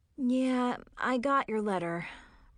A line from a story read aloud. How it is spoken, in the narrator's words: Brandon sighed